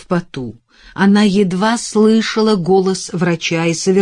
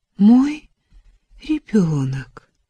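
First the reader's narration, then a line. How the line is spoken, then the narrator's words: Whisper. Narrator (Russian): прошептала она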